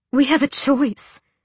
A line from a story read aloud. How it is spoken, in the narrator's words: she breathed